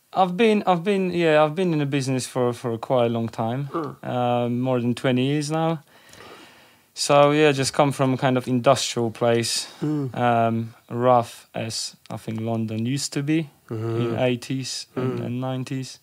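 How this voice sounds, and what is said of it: Polish accent. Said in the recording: “there is an accent there. Originally from Poland ... South Poland”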